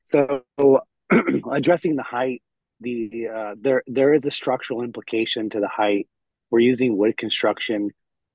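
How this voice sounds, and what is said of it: Hoarse, weakened voice. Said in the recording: “Excuse my voice. I lost my voice”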